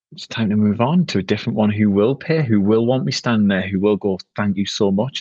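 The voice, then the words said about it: South Shields northeast English accent. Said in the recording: “my accent ... I'm only a lad from South Shields”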